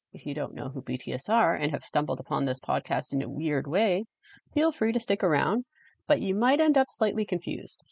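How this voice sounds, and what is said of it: Anglo-Canadian accent. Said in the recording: “If you can't tell by my voice, I'm Anglo-Canadian ... a heavy Canadian accent”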